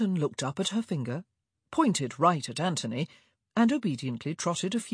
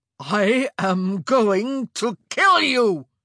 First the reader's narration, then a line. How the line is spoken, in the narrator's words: he roared